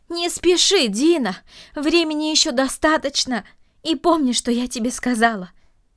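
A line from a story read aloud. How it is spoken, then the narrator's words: Shout after someone. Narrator (Russian): крикнула ему вслед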